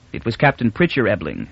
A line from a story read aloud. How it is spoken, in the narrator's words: said Beta